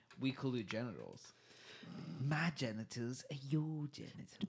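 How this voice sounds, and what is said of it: Put-on cat character accent. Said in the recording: “What is this accent? ... I'm a cat. This is my cat.”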